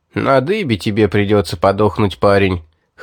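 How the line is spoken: Guard's mocking chuckle. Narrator (Russian): хохотнул стоящий рядом стражник

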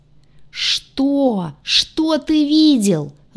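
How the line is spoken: Howling. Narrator (Russian): взвыл парень

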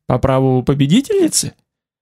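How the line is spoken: Laughing loudly. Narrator (Russian): Она расхохоталась

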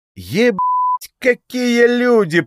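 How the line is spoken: Booming inner voice. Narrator (Russian): прогремело во всем теле

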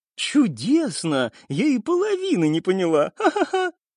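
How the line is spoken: Loud laughter. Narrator (Russian): В голос рассмеялась Ринни

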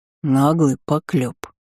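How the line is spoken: Deep bass. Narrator (Russian): пробасил Элви

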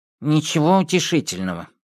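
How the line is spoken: Grumbling mutter. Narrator (Russian): пробурчал Винни-Пух

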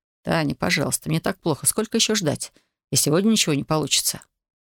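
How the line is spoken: Whisper. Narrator (Russian): Дмитрий прошептал

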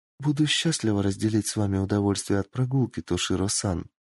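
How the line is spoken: Quiet reply. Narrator (Russian): тихо ответила Кицуне

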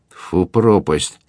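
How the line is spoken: Muttering through teeth. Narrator (Russian): бормотал он сквозь зубы

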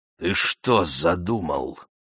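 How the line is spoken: Menacing question. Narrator (Russian): грозно вопросил Сангак

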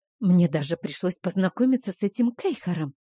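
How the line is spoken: Whispered complaint. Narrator (Russian): понизив голос до шепота, пожаловалась

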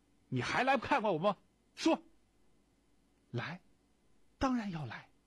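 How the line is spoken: Angry. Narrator (Chinese): 你三爷怒气冲冲地说

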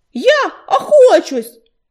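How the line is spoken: Desperate exclamation. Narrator (Russian): с отчаянием воскликнул Ежевика

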